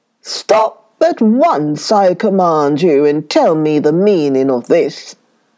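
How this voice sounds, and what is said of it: Loud roaring lion voice. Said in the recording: “he roared in a loud voice 3 times”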